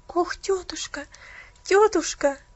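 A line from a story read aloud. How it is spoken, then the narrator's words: Tearful pleading. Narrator (Russian): взмолилась Пуляна со слезами на глазах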